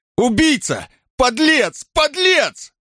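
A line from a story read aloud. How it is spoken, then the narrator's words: Anguished, furious shout. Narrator (Russian): Эмиль не выдержал, крикнул с искаженным лицом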